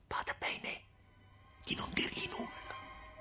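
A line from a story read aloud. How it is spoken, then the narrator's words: Hurried whisper in ear. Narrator (Italian): Agnese ebbe appena il tempo di sussurrare all'orecchio di Lucia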